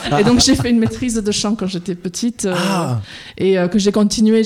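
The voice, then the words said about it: Slight English accent in French. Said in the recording (French): “je suis à la base anglaise. Vous l'entendez peut-être dans mon petit accent.”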